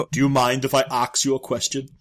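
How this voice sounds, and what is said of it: Put-on German accent. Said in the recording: “In a German accent, no less. That's great.”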